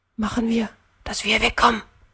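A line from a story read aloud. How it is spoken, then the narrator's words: Whisper. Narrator (German): flüsterte er Jan zu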